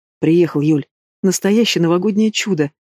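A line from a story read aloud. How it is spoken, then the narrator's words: Uncertain laugh. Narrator (Russian): смеется неуверенно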